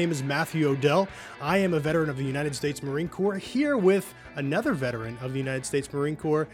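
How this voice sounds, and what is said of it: Usual voice. Nothing is said of it.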